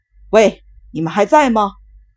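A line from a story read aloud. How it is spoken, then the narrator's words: Shouting. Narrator (Chinese): 大喊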